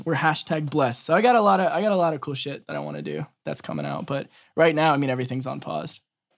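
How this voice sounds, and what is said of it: Rough, strained voice. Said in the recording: “my voice is so fucked from protesting and yelling a bunch.”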